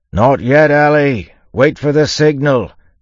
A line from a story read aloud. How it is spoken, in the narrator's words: Yimt yelled